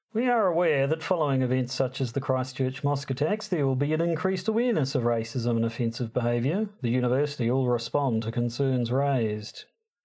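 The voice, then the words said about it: Thick put-on Kiwi accent, Fred Dagg-like. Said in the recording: “just do your thickest Kiwi accent ... A bit Fred Dagg? ... It's kind of hard to know whether that's a really, really good accent or a really, really insulting one”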